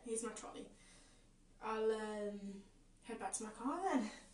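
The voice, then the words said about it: Put-on accent in a skit. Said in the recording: “all these accents”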